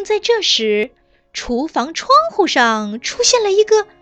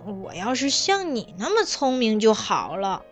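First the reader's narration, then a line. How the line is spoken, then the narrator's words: Muttering. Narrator (Chinese): 哼哼嘀嘀咕咕地说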